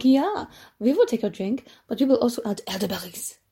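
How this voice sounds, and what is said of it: Poor attempt at Dutch accent. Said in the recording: “That is not a Dutch accent. And I should know what a Dutch accent is.”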